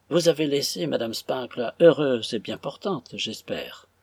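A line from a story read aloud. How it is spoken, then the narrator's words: Cold sigh, asking. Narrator (French): demanda Madame Générale, après avoir poussé un soupir assez froid au profit de Frédéric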